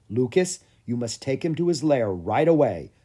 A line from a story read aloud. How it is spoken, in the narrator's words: said Andre